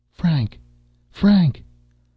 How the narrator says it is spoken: cries the voice with the dreadful familiar ring in it

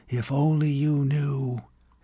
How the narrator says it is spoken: he whispered

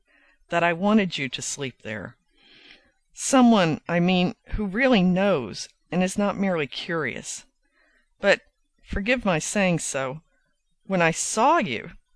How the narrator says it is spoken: she laughed very slowly

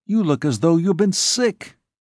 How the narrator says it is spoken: he exclaimed

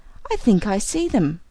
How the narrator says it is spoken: I cried

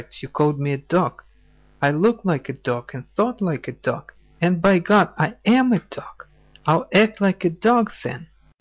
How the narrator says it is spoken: he cried

